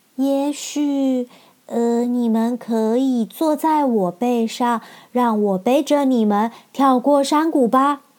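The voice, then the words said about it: Quiet, soft-spoken lion voice. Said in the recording (Chinese): “狮子才小小声的说”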